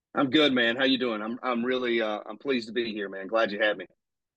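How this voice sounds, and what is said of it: South Carolina Southern accent. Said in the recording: “from South Carolina ... I commented on your accent ... You're in South Carolina”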